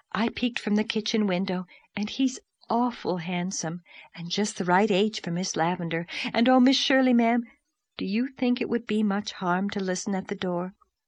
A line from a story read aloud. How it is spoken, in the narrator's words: she breathed